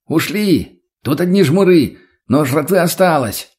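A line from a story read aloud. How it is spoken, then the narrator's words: Shouted. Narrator (Russian): прокричал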